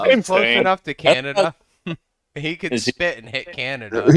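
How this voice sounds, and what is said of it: Usual voice. Nothing is said of it.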